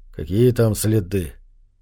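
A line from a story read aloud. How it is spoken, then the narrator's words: Gruff mutter. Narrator (Russian): буркнул охотник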